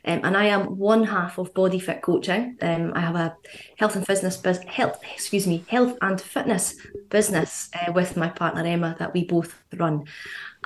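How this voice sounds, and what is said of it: Scottish accent. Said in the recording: “you probably hear I've got a Scottish accent”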